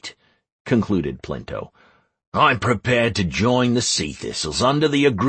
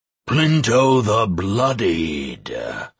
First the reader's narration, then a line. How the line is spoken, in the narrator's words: roared the oak